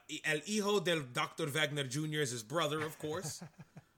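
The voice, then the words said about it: Put-on Spanish accent. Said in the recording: “Am I doing good with my Spanish accent? ... You're killing it, man.”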